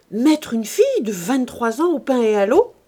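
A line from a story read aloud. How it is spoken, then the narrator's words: Indignant exclamation. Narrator (French): s'écria le président de Bonfons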